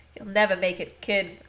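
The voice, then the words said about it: Put-on unidentified accent. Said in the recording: “I don't know what that accent was.”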